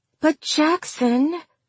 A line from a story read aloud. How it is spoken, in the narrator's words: she whined